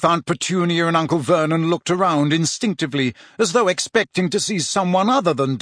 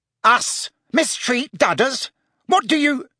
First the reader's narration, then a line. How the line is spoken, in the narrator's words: began Uncle Vernon furiously